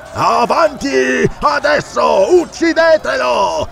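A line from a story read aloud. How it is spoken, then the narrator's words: Yell. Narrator (Italian): urlò Ascalante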